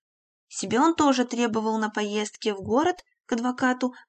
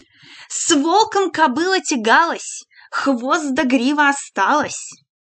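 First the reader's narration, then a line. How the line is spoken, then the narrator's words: Loud, mocking. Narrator (Russian): Христина Левашова сказала громко и насмешливо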